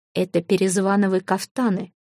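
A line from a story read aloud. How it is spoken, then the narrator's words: Whispered. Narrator (Russian): прошептал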